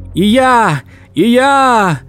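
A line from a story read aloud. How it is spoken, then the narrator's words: Thin high shout. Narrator (Russian): тоненьким голоском кричал рыжий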